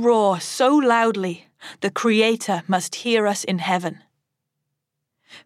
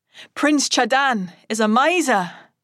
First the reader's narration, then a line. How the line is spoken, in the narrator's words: I shout